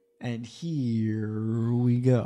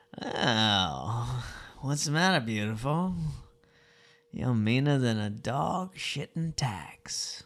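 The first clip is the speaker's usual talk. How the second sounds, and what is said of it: Put-on accent. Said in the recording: “Let me find this voice ... accent”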